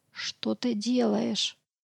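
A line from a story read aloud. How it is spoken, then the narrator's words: Whisper. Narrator (Russian): прошептала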